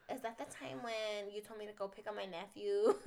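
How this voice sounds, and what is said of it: Put-on Chindi accent. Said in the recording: “I have to use my Chindi accent.”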